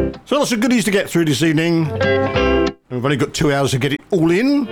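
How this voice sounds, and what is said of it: Usual voice. Nothing is said of it.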